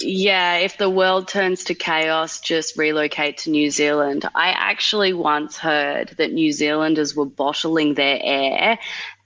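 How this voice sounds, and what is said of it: Australian accent. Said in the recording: “I know you're from Australia... Love the accent.”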